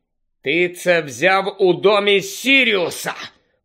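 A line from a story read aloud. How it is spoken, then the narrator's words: Hissed. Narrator (Ukrainian): прошипів Гаррі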